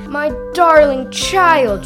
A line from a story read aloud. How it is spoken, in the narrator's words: she cried